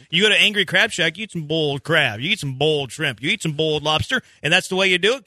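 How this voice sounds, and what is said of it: Southern American accent. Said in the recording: “I have a southern accent. ... whenever I eat this food, I get a little bit of that accent.”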